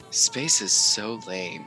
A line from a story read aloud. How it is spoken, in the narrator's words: I take a long and a very deep sigh